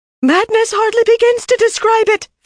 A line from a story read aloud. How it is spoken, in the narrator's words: Faisella shouted